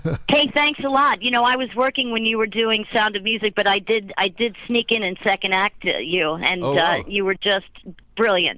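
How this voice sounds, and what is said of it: Lively voice, slight East Coast accent. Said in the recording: “Fun. Little lively. Accent. Little East Coast accent.”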